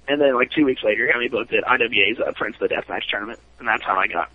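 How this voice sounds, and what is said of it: Usual voice. Nothing is said of it.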